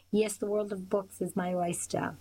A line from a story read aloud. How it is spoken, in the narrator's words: Will laughed